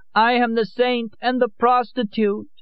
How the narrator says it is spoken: cried

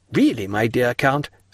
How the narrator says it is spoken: said Morcerf

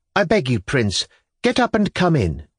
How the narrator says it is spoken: she brought out suddenly in a firm, emphatic voice

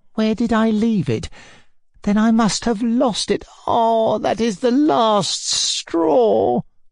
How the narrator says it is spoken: he moaned at last

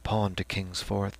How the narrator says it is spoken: The medical student went on in a softer voice

